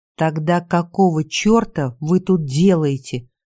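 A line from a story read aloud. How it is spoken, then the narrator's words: Hissed. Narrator (Russian): прошипел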